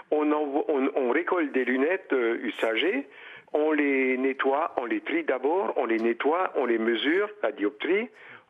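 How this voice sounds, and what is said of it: Slight regional French accent. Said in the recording (French): “noté un léger accent chez vous”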